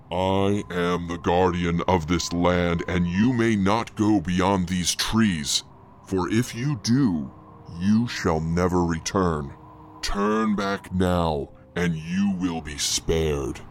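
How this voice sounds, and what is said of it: Terrible, intimidating character voice. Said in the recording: “spoke once again in that terrible voice”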